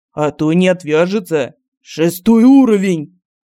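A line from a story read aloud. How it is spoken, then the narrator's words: Barked. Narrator (Russian): гаркнул Семен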